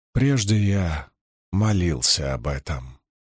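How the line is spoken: Soft. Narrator (Russian): мягко сказал Лан

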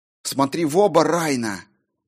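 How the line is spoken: Hissed to herself. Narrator (Russian): прошипела она сама себе

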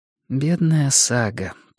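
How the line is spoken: Whisper. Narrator (Russian): прошептала Карин

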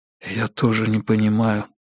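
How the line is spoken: Whispered reply. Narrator (Russian): прошептал Брэдли в ответ

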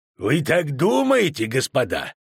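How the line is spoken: Snorting. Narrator (Russian): фыркнуть Деннису Кранмеру

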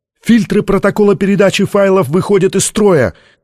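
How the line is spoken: Shouted. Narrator (Russian): крикнул кто-то из технического персонала

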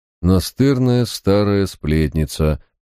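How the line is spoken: Muttered through teeth. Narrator (Russian): процедил Барак

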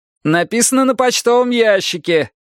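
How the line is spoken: Shouted. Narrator (Russian): крикнул я

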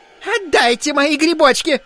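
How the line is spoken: Woman shrieking. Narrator (Russian): завизжала дама

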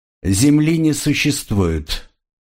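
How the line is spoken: Cold reply. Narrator (Russian): холодно отозвался Айра

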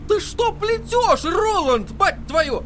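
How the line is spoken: Yelling. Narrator (Russian): заорал Эдди

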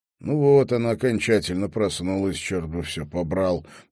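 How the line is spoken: Grumbling. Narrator (Russian): проворчал он

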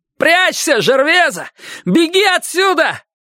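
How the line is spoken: Yelling. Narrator (Russian): заорал он

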